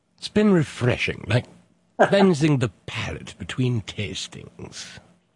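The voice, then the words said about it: Classy put-on British accent. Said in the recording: “Say it in a British accent, you'll really sound classy.”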